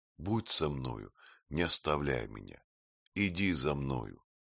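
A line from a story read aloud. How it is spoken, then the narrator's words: Quiet reply. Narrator (Russian): тихо отвечала Афра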